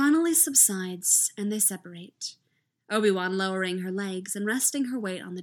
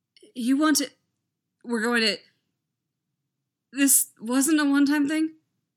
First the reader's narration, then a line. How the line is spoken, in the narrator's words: His voice cracks